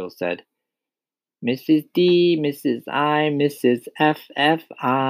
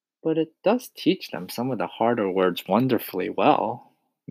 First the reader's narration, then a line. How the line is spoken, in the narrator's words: Miss Honey murmured